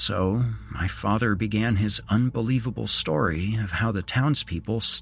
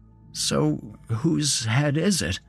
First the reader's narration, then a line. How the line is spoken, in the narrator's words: asked nervously